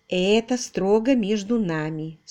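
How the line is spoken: Calm. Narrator (Russian): спокойно продолжила она

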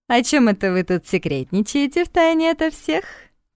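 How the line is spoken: Drunken giggle. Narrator (Russian): пьяно хихикнула она

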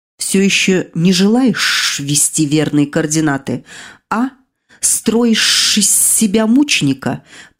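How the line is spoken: Hissing into ear. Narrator (Russian): прошипел Арацельс в ухо своей жертве

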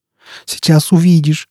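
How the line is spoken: Moaning. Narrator (Russian): стонал Степан

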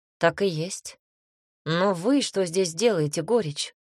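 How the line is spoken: Calm question. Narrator (Russian): спросил Никита спокойно

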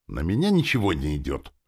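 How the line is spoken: Snapped. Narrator (Russian): огрызнулась она

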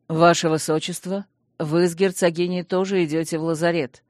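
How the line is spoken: Steady male voice. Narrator (Russian): не дрогнувшим голосом приговорил Гилли мой муж

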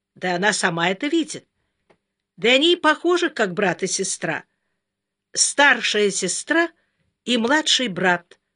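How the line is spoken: Sharp self-correction. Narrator (Russian): резко поправила себя Майка

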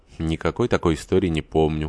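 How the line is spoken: Cold reply. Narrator (Russian): холодно отвечал Горданов

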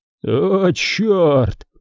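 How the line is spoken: Groaning, choking with laughter. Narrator (Russian): простонал он, захлебываясь от смеха

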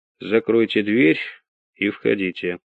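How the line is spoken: Calm male voice. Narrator (Russian): спокойно произнес мужской голос

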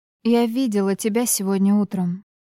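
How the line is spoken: Calm. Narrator (Russian): сказала я спокойно

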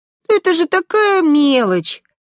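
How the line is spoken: Sigh. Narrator (Russian): Ариэль вздохнула

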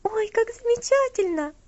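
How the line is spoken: Joyful exclamation. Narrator (Russian): восклицала Элси, радостно

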